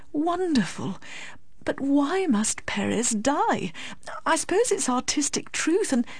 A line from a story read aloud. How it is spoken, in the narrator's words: murmured Miss Medhurst